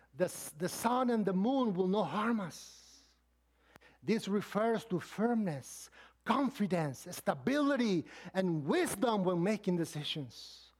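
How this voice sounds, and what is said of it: Speaks with an accent. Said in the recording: “Forgive my accent there.”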